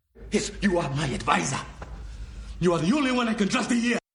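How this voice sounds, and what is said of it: Ugandan accent. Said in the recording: “African accent ... Ugandan accent”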